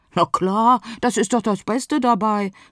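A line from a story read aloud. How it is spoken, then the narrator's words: Mooncalf calling out. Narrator (German): rief das Mondkalb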